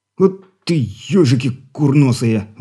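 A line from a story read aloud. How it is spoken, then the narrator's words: Startled exclamation. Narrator (Russian): воскликнул от неожиданности пограничник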